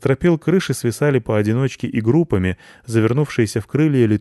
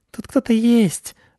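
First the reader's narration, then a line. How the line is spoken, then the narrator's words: Mice squeaking. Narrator (Russian): запищали мыши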